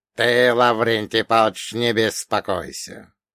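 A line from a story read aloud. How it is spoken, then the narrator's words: Creaky voice. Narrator (Russian): скрипучим голосом произнес друг Ольга Богданович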